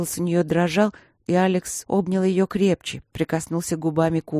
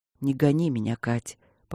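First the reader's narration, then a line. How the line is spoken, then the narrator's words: Quiet plea. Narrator (Russian): попросил он тихо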